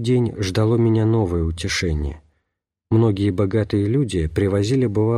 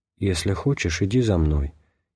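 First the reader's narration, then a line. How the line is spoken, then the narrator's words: Barely audible speech. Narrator (Russian): чуть слышно проговорил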